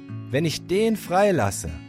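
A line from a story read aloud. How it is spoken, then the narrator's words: Plain. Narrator (German): sagte Pilatus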